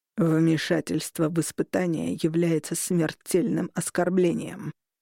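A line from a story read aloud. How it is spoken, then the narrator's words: Archivist speaking through teeth. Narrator (Russian): процедил архивариус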